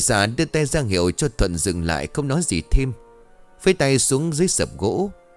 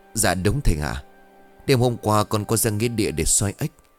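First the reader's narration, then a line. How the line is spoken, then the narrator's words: Trembling voice. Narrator (Vietnamese): Thuận giọng run rẩy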